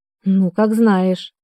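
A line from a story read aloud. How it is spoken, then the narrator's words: Sighed. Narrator (Russian): вздохнула Динуля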